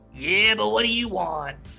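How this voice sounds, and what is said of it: Raspy character voice. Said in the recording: “raspy voice”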